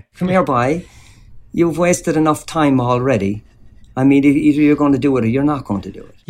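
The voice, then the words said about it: Exaggerated Cork accent, coach impression. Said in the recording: “he was doing an impression of his old Cork coach ... parodying the Cork accent to a certain extent ... Tony Walsh”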